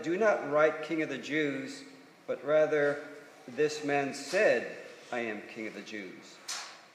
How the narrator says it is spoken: Pilate answered

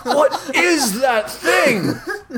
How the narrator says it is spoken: Matt shouts

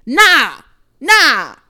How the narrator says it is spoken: shouted a random girl

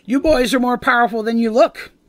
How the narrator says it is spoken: cackles

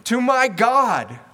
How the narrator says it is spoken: I cried for help

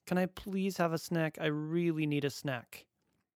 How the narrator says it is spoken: shrieked happily

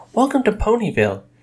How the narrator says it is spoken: added cheerfully

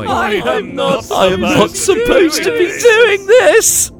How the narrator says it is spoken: I giggled

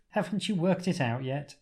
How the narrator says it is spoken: The Doctor laughs

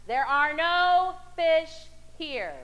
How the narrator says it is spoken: a loud voice from above boomed at them

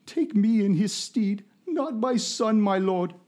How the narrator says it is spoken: pleads

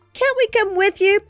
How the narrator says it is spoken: pleaded Josie

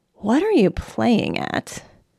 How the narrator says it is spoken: the lawyer muttered

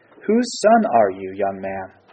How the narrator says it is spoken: Saul asked him

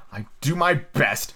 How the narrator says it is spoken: the messenger said in a sulky tone

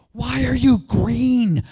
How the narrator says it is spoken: I whispered, yelled down the tube

